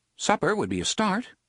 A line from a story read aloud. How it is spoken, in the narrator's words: said brightly